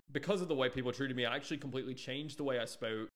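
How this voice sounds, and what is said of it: Southern US country accent. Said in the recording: “I used to talk in a very thick country accent, a little thicker than the one I'm using now ... I'm from Alabama ... I just decided I would test a little accent with you guys”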